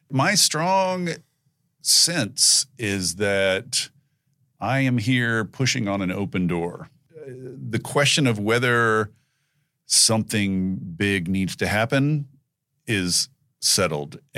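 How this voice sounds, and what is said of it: Scratchy, worn-out voice. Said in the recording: “I've been talking. That's why my voice is so scratchy.”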